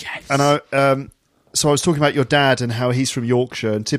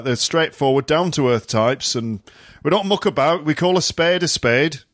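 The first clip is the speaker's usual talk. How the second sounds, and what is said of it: Put-on Yorkshire accent. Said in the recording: “Is that a Yorkshire accent? ... Sounds like my granddad.”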